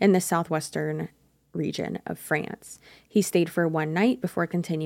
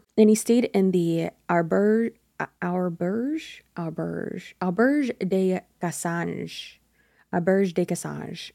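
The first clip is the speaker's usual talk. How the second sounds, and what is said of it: Exaggerated bad French accent. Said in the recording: “I'm just going to say everything with a horrible French accent so that it sounds better”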